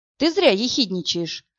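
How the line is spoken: Calm objection. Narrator (Russian): спокойно возразил Боротынский

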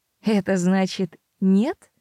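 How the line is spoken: Soft, almost delighted. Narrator (Russian): мягко и почти восторженно осведомился Питер

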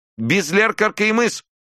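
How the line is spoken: Thin squeak. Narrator (Russian): тоненько пропищала Вырубова

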